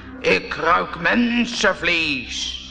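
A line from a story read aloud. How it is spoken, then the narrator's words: Roaring. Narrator (Dutch): Hij … brulde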